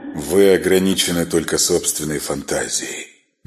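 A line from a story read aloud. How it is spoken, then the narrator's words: Soft reply. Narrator (Russian): мягко ответил он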